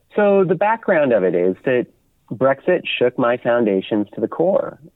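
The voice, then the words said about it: British accent with American traces. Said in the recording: “he also has some roots in the United States, as you may hear from his accent.”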